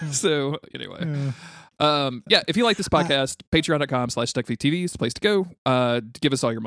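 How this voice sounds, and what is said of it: Usual voice. Nothing is said of it.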